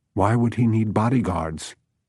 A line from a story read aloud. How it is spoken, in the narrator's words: Holly asked